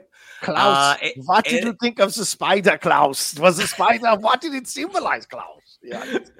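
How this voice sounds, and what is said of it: Put-on German accent. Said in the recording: “you adopted a German accent”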